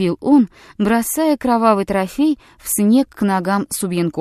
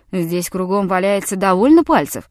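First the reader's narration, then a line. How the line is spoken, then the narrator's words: Grumbling. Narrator (Russian): пробурчал Якага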